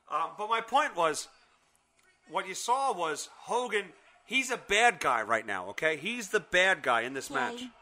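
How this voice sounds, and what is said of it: Boston accent. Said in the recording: “You're saying I have a Boston accent right now? ... Correct.”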